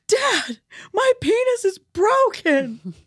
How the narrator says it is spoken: he screams

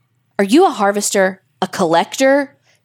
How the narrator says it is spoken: Daniel bravely called out, his heart pounding like a jackhammer

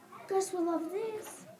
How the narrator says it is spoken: said Pip

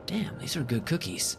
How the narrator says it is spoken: I mumbled to myself as I ravenously devoured it

